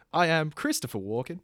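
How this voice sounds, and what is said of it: Bad Christopher Walken impression. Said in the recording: “your impression... Because it's bad... That was pretty bad. Not that I could do much better, but that was pretty bad.”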